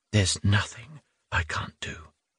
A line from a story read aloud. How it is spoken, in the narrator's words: she insisted in a low voice